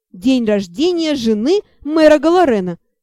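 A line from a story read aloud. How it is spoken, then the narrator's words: Dragon bursting out laughing. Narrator (Russian): почему-то расхохотался дракон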